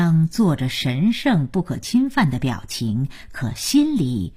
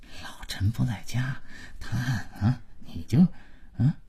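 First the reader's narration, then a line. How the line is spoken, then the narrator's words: Muttered half-aloud. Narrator (Chinese): 马老头跟老婆小声但足以让姥姥听见的嘀咕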